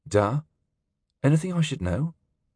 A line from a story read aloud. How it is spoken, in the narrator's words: he asked hesitantly